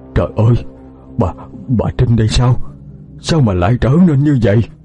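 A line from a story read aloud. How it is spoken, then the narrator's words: Old man stammering. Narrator (Vietnamese): Miệng ông lắp bắp lên từng tiếng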